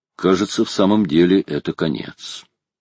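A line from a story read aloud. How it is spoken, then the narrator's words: Calm. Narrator (Russian): Майор проговорил своим спокойным голосом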